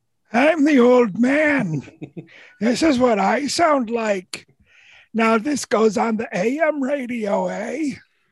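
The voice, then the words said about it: Put-on old man voice. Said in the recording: “old man voice”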